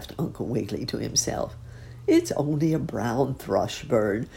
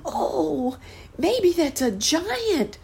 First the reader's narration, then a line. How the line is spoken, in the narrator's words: cried the boy